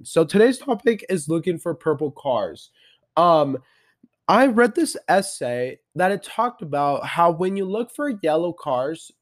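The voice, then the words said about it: Sick, strained voice from a cold. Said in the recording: “excuse my voice. I got sick after the lake ... that's why I'm sick ... I feel so much better now”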